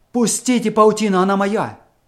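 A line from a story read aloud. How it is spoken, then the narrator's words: Loud shout. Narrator (Russian): Громко закричал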